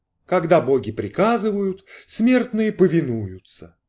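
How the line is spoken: Chanting. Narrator (Russian): нараспев проговорил Кордл

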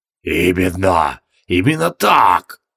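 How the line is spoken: Enthusiastic male wheeze. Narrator (Russian): Воодушевленно хрипел он

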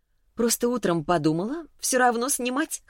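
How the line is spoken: Laughing. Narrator (Russian): хохотнула я

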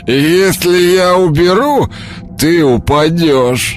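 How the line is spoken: Wheezing, barely articulate. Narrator (Russian): Просипел, едва выговаривая слова, мужчина

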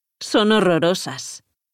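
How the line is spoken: Grumbling. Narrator (Spanish): refunfuñó Claudia

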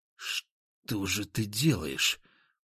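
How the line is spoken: Wary whisper. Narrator (Russian): прошептал я, оглядываясь

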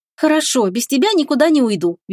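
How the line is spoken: Cheerful reply. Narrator (Russian): весело откликнулась она

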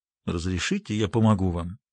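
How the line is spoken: Quiet, insistent, slightly ironic man. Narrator (Russian): негромко, но настойчиво произнес мужчина с легкой иронией

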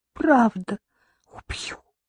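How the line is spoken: Whisper. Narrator (Russian): прошептала Катя, тыча с лицом в его грудь

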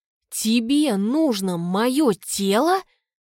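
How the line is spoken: Angry, through gritted teeth. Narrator (Russian): Процедила я сквозь зубы, от злости

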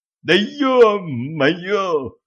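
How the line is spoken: Sudden anguished howl. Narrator (Russian): взвыл мгновенно переставший икать Пьер

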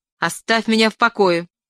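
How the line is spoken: Sudden shout. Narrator (Russian): крикнула она внезапно

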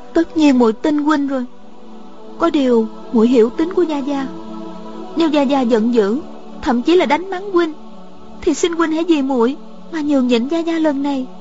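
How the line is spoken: Trembling hoarse voice. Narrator (Vietnamese): Miêu Nhược Lan bất giác toàn thân run rẩy, khà nói

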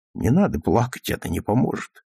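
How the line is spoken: Soft, uncertain. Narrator (Russian): прибавил мягко и неуверенно

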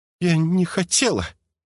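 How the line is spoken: Girl forcing words, sobbing. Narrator (Russian): выдавила из себя девушка и всхлипнула

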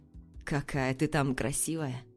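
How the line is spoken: Delirious mumbling lion. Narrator (Russian): бормочет лев, словно в бреду

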